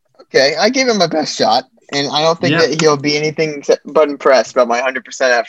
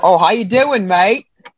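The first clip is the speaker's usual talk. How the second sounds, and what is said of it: Bad put-on Australian accent. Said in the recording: “Australian. ... doing a horrible, horrible accent”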